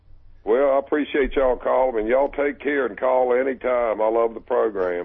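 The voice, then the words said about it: A regional accent. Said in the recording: “His accent reminds me of home.”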